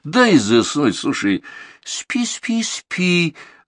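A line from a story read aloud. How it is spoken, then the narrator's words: Gentle whisper. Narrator (Russian): ласково прошептала Даша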